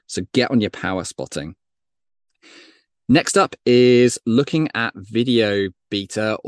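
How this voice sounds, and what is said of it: British English accent. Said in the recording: “Apologies for the British accent. My American friends always take the piss out of that.”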